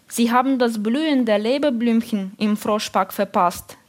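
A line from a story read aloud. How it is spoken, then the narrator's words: Plain. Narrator (German): sagte er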